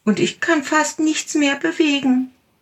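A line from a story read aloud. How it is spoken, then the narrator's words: Little tiger calling. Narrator (German): rief der kleine Tiger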